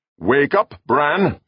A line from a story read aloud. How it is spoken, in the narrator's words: called